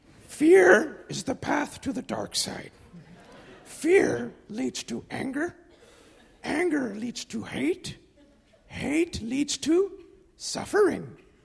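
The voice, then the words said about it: Yoda impression. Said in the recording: “that Yoda impression”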